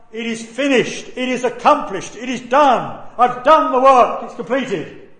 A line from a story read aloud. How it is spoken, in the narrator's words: He cried out